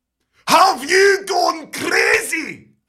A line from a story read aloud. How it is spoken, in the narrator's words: He roars